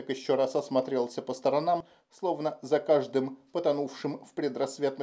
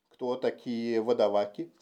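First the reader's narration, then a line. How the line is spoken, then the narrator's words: Plain. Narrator (Russian): спросил Толлер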